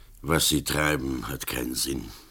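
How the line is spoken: Grumbling. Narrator (German): Berlach brummte

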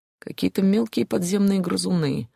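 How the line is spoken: Annoyed mutter, man. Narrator (Russian): с досадой пробормотал мужчина

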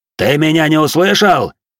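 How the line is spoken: Barked. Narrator (Russian): рявкнул на него воин

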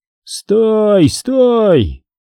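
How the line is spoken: Crowd shouting. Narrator (Russian): кричали люди

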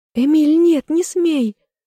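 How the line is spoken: Anguished cry. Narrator (Russian): вскрикнула надрывно

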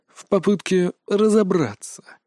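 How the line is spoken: Sad sigh. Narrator (Russian): грустно вздохнул маг

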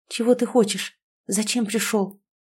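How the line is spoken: Frightened question. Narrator (Russian): спросила, продолжая испуганно пятиться

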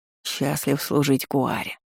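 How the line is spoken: Purring creature. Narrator (Russian): промурлыкало существо

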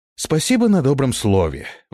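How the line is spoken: Sigh. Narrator (Russian): вздохнул я

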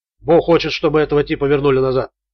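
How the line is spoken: Plain. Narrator (Russian): сказал боец

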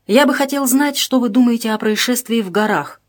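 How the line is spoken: Plain. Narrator (Russian): спросил Шердаков

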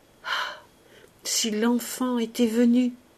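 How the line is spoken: Sobbing stammer, very low. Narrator (French): Plus bas encore, en un sanglot, bégayer

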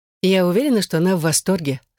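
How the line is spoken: Plain. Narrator (Russian): сказала Элизабет

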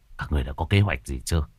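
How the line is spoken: Whispered discussion. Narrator (Vietnamese): Mấy vị đạo trưởng thì thầm thương lượng

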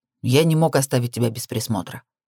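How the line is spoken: Harsh tone. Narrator (Russian): пояснил он жестким тоном

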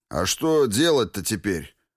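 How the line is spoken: Gloomy question. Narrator (Russian): мрачно спросил Жадов

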